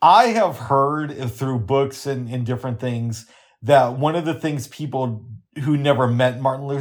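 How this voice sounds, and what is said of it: Usual voice. Nothing is said of it.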